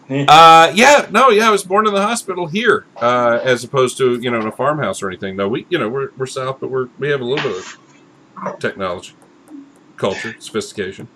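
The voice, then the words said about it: Southern US drawl. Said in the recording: “your best southern drawl ... I grew up with that. That's my ... native tongue”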